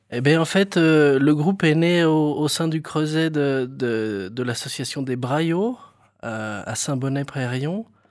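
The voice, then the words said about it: Regional French accent from Berry. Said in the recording (French): “on le voit bien, l'accent. Il vient d'où, cet accent ? ... Moi, je suis du Berry.”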